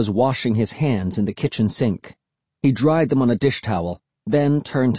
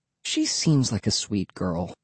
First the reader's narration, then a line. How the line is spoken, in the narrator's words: Mom said quietly